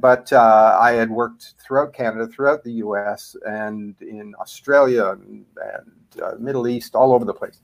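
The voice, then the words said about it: Canadian accent. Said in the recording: “I'm a Canadian originally. You'll probably pick that up in my accent.”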